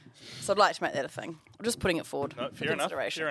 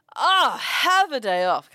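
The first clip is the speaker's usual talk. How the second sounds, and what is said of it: Attempted English accent. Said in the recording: “Say it in an English accent. I can't say it in an English.”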